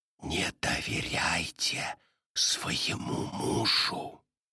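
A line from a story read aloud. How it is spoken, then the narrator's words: Whisper. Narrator (Russian): Мелли прошептала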